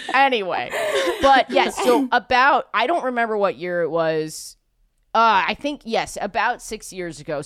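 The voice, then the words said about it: Strong New York accent. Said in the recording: “my voice is so stupidly New York”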